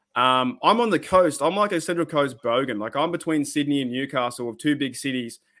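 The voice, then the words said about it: Australian accent. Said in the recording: “my like Australiano accent comes across, like the more that Cockney accent”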